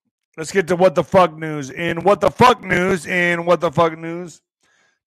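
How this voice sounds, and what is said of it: Usual voice. Nothing is said of it.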